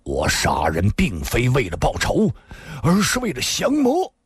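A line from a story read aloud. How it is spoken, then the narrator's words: Angry voice. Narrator (Chinese): 新建大师怒声说道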